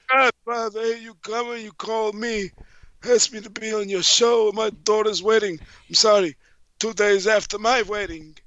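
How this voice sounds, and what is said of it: Jewish mafia guy voice. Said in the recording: “I'm talking like a Jewish mafia guy now.”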